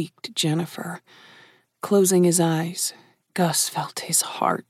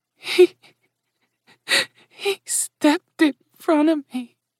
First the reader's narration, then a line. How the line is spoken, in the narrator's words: whimpered Gus's mother